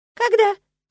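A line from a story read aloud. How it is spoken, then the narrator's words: Servant's squeak. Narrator (Russian): пискнул кто-то из толпы прислуги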